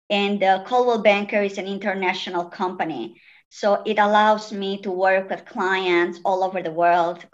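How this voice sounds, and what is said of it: Italian accent. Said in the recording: “as you might say from my accent, I moved here from Italy”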